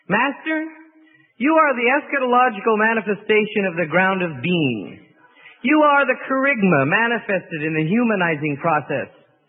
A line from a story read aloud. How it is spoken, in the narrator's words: One spokesman for the group jumped up excitedly and said